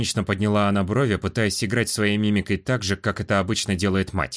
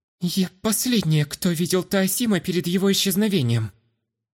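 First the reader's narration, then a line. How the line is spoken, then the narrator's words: Slightly trembling voice. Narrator (Russian): Слегка дрогнувшим голосом попыталась объясниться Астра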